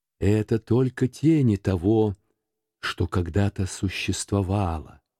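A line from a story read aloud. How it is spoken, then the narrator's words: Plain. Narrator (Russian): сказал дух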